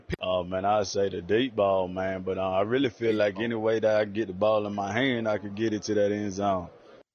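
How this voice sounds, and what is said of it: Southern South Carolina accent. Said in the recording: “a Southern accent, and it's really his ... vintage South Carolina accent”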